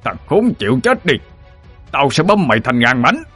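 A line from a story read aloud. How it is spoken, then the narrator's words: Roaring. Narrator (Vietnamese): Lão gầm lên một tiếng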